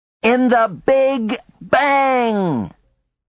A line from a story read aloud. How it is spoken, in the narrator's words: They would howl with glee